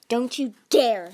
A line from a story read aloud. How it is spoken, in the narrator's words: Tsunami snapped